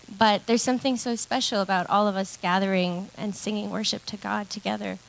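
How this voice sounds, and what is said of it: Shaky, nervous voice. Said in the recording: “My voice is shaking. I'm a little nervous”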